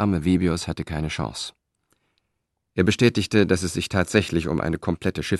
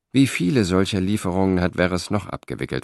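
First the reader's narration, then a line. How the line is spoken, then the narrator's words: Plain question. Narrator (German): fragte Cicero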